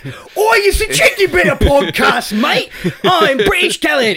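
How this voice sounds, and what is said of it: Put-on British accent. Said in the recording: “those versions of us are actually British”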